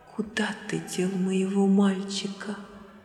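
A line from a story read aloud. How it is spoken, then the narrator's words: Shuddering whisper. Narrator (Russian): Она вздрогнула всем телом и прошептала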